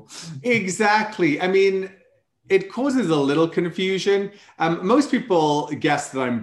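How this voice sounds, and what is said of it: Welsh accent. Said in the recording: “How does the Welsh accent go down in the down the States?”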